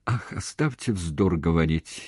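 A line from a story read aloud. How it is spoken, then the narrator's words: Angry, near tears. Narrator (Russian): едва ли не сквозь слезы рассердилась Люба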